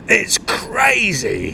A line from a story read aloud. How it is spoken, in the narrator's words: he screamed